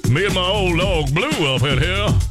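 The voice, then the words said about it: Folksy Southern drawl impression. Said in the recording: “anybody that sounds like him ... They're going to talk like that ... when he talks, it's like, I feel like he's on the porch at Cracker Barrel”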